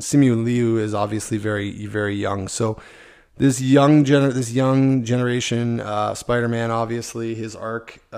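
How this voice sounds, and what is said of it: Strained, sore-sounding voice. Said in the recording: “as you can tell, my voice is killing me.”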